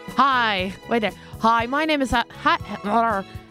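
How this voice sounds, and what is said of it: American-sounding accent. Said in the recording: “I don't know why I'm sounding American.”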